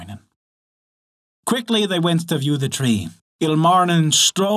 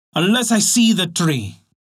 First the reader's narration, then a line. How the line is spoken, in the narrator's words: cried Ilmarinen